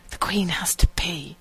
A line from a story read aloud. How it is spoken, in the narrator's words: he whispered